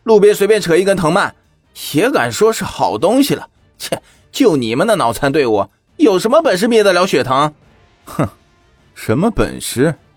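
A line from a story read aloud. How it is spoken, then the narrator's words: Sneering laugh. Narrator (Chinese): 那军官已经冷笑出声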